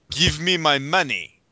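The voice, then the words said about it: Bad put-on German accent. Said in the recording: “talk with a German accent ... That's a terrible German accent.”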